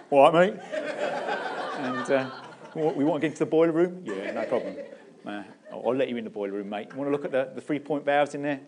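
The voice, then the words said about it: Put-on South London accent. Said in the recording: “I put on a bit of a South London accent”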